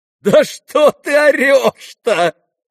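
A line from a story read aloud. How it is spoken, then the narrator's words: Loud laughter. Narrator (Russian): хохотала на него Настасья Филипповна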